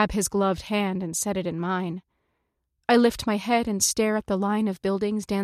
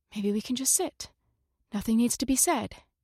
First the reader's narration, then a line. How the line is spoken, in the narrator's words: whisper